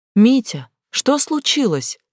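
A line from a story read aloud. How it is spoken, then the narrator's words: Shouted. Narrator (Russian): крикнула Глаша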